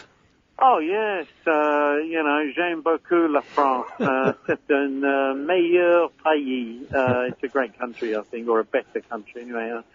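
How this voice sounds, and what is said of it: French spoken with Cockney accent. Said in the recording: “it's interesting hearing French with a Cockney accent.”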